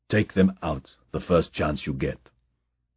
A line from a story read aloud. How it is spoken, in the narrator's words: murmured